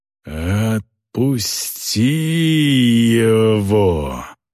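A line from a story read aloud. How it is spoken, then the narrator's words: Growled by a prisoner. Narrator (Russian): прорычал пленник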